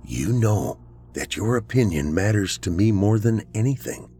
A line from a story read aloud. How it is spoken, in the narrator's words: he said quietly into her ear